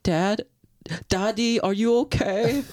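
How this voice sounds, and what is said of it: Put-on English accent. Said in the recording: “Is that your English accent?”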